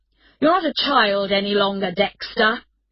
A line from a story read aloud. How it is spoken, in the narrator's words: his father replied angrily